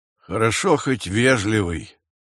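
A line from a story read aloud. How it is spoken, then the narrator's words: Grumbling. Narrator (Russian): пробурчал Нестор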